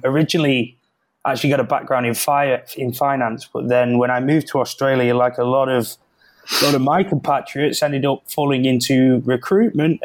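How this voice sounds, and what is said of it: British accent. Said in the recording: “like you can probably see by the accent. I'm from the UK.”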